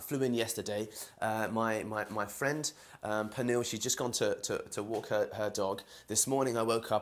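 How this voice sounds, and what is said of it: London English accent. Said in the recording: “I'm from London, as you can hear from my accent.”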